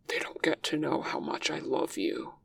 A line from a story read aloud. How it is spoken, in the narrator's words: he rasps, leaning lower so he can say it directly into Wei Ying's ear